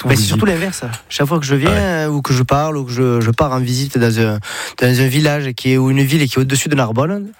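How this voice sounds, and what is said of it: Sing-song southern French accent. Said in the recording (French): “vous venez pas du nord de la France ... avec l'accent, j'ai le package ... c'est chantant ça ... Toi, t'es du sud.”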